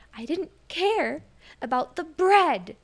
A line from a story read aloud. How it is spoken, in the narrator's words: Turi shouted